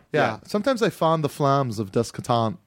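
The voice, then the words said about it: Imitated movie character's accent. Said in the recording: “Serge from Beverly Hills Cop. ... You have so much trouble with this accent.”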